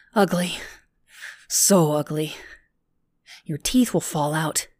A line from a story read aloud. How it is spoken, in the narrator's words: Lindsay muttered as if drunk